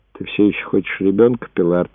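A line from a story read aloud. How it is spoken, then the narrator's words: Quiet. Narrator (Russian): тихо спросил ее Брэд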